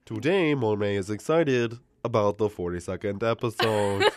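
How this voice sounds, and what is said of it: News reporter voice. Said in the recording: “doing the news reporter voice”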